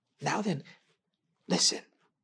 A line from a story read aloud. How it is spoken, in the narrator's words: Seaton whispered